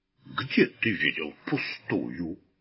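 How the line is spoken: Offended deep bass. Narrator (Russian): обиженно пробасил тот

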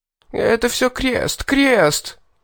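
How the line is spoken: Whiny pained howl. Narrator (Russian): Плаксиво взвыл доходяга, громко вскрикнувший и скрючившийся, после моего довольно жесткого удара

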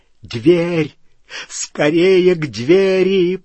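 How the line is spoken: Moaning into ear. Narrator (Russian): простонал Малфой в ухо Гарри

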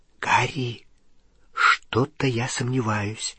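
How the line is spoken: Whisper. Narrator (Russian): зашептала Гермиона

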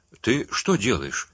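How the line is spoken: Plain. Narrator (Russian): спросил он

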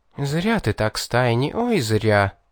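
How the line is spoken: Menacing sullen snort. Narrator (Russian): грозно засопела помрачневшая девушка

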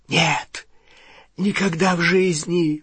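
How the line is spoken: Whisper. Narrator (Russian): прошептал Малфой

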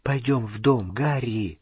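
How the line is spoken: Whispered. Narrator (Russian): прошептала Гермиона

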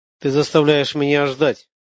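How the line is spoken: Flat, impassive young voice. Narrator (Russian): бесстрастным голосом произнес юноша

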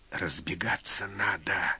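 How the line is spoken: Furtive whisper. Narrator (Russian): украдкой шепнул

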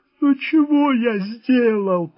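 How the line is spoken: Tearful whining voice. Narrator (Russian): плачущим голосом затянул

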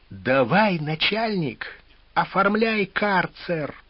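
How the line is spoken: Thin-voiced demand. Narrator (Russian): тонким голосом потребовал Галкин

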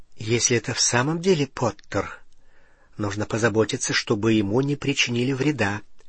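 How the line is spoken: Muttering to herself. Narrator (Russian): пробормотала она как будто самой себе

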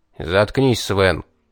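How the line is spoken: Angry cutting off. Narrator (Russian): зло оборвал его десятник

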